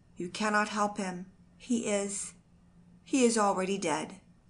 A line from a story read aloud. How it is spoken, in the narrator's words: said the messenger in an unsteady voice